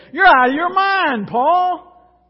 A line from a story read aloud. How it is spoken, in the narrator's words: he shouted